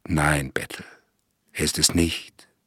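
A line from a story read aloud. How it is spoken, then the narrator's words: Close whisper in ear. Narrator (German): flüsterte der Inspektor ganz dicht am Ohr des Sterbenden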